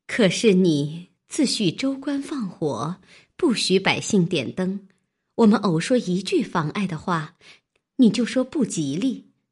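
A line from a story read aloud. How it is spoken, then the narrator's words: Laughing. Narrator (Chinese): 袭人笑道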